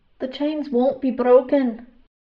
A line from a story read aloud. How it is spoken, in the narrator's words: Flint said through gritted teeth